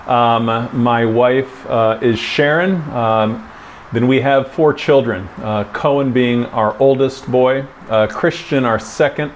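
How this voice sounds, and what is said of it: Speaks with a distinctive accent. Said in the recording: “this strange man speaking in this interesting accent”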